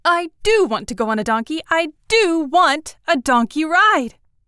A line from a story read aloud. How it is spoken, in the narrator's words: suddenly, I sat up and called out as loud as I could